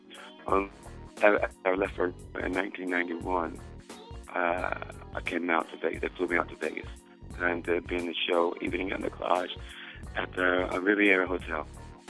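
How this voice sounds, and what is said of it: Hoarse voice. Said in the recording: “my voice is hoarse. I haven't had any sleep.”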